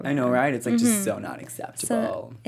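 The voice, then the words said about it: Put-on American Valley girl accent. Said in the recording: “that your American accent? ... That was my American accent. I've been trying to learn it ... You sound like a Valley girl.”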